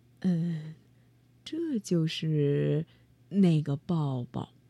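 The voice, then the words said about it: Soft, shy quiet voice. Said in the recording (Chinese): “红着脸， 小声的说”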